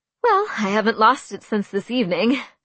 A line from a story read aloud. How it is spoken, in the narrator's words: I laughed nervously